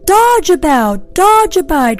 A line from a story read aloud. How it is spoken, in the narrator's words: cried the goose